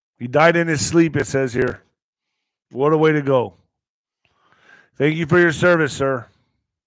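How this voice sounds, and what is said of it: Choked-up emotional voice. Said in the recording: “I get a little choked up”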